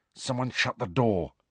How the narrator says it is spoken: Harry muttered

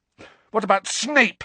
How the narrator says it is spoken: Harry spat

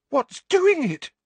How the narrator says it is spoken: Parvati demanded in a terrified voice

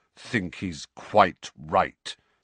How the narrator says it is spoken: said Sirius through clenched teeth

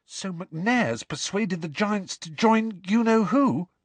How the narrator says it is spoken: said Hermione desperately

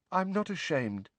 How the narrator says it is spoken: said Neville, very faintly

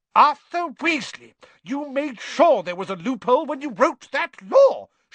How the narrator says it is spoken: shouted Mrs

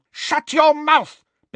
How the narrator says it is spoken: Bellatrix shrieked

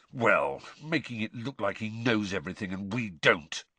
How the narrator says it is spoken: Ron snarled

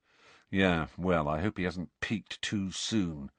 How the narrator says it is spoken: said Fred gloomily

